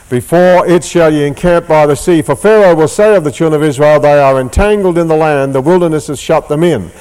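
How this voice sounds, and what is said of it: Australian accent. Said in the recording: “with an Australian accent”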